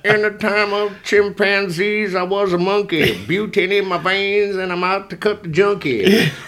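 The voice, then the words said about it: Imitates another person's voice. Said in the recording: “maybe I'll do my best Beck impersonation”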